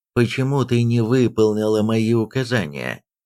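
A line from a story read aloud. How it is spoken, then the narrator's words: Flat, expressionless question. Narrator (Russian): ничего не выражающим тоном спросил Казмир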